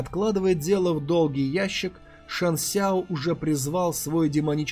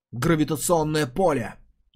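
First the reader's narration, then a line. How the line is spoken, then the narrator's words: Contemptuous snort. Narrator (Russian): Ли презрительно хмыкнул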